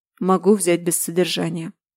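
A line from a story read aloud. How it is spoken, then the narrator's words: Lifeless flat voice. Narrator (Russian): безжизненным голосом проговорил он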